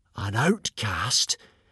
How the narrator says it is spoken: gasped the hooligans

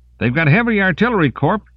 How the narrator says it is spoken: He shouted as the weapon juddered in his arms

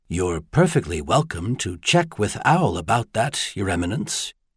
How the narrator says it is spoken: he said very quietly

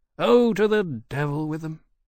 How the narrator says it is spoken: Riley said, sighing

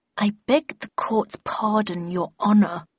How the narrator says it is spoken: replied through gritted teeth

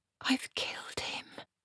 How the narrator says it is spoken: she whispered

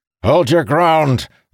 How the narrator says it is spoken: Mirrodin shouted

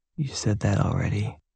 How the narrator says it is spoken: She murmured

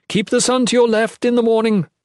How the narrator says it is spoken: she yelled to everyone

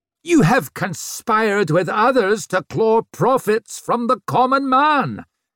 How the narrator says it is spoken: shrieked Swarbrick

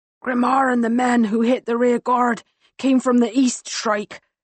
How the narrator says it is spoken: he rasps, determined to deliver the message

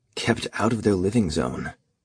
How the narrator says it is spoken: Fred said quietly beside her

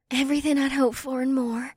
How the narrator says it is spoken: Zakiyu said with a longing sigh

